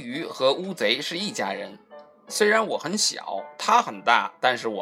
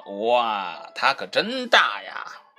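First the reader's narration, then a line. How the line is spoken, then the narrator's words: Amazed exclamation. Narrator (Chinese): 皮医生不禁感叹道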